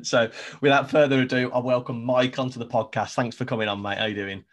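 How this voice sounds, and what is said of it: Brummie (Birmingham) English accent. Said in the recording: “and I pretty much sound the same. And I think it's because of the Brummy accent.”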